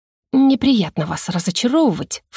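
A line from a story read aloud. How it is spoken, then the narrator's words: Angry matching hiss. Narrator (Russian): в тон ему прошипела я, чувствуя поднимающееся к горлу гневное клокотание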